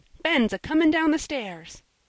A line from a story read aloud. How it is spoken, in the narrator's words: screamed Joel